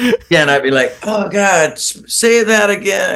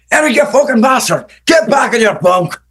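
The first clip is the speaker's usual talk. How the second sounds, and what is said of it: Shouted, intimidating Scottish accent. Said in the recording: “I love your accent... you're kind of intimidated by that accent”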